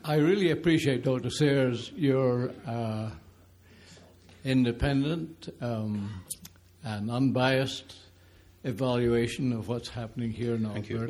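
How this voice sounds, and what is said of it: Speaks with a noticeable accent. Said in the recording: “I will not apologize for my accent.”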